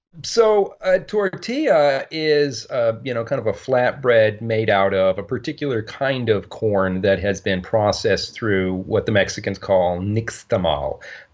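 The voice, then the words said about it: Slight Canadian accent. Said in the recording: “if you hear a little bit of that Canadian accent”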